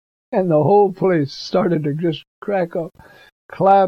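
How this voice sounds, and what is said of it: Usual voice. Nothing is said of it.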